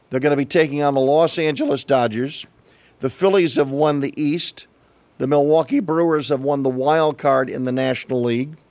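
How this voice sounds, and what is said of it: A little scratchy voice. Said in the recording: “My voice is a little scratchy today because I was out cheering”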